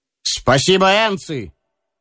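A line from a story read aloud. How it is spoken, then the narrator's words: Firm, friendly shout. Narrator (Russian): твердо и приветливо крикнул генерал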